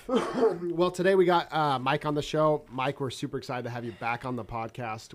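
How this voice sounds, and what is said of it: Nasal voice. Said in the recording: “I sound nasally... I sound like Squidward from SpongeBob... You sound like a cat that maybe got ran over three times”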